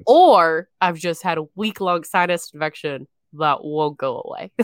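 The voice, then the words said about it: Congested, lower-pitched voice. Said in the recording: “doing the show today with a sinus infection ... you normally know my voice to be like pitched a little bit higher ... I just sound like a cave goblin ... special variant version of my voice”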